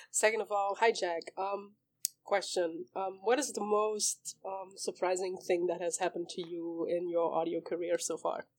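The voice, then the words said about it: Rough, unwell-sounding voice. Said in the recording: “my voice sounds so bad ... Because I'm sick”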